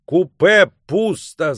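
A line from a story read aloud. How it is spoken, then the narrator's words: Shout. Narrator (Russian): закричал он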